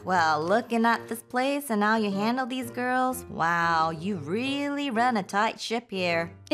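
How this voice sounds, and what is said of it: Put-on Southern Texas drawl. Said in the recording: “I love the Southern accent. ... I had to bring out my Texas drawl.”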